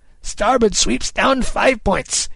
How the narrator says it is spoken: Kidd cried

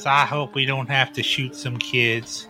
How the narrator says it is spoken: mutters

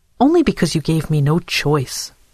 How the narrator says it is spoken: Dora snapped

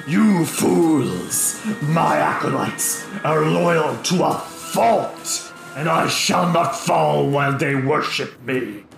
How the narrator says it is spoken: lets out a snarl and he says

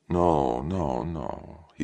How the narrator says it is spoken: said dreamily

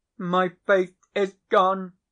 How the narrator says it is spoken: cried he, after one stupefied moment

